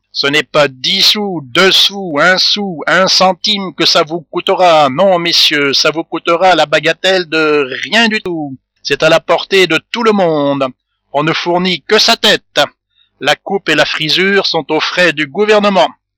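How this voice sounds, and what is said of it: Fairground showman's barking voice. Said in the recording (French): “ajouta Pique-Vinaigre avec un accent de bateleur”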